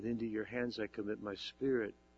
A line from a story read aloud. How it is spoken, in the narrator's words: He said